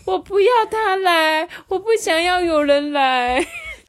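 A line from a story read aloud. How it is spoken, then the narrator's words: Crying. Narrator (Chinese): 他就真的哭，而且他就说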